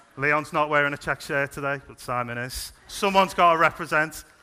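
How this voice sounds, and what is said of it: Speaks with a noticeable regional accent. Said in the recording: “you need to lose that silly accent ... my accent is part of my identity”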